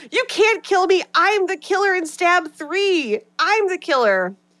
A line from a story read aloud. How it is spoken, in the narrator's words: Jennifer screams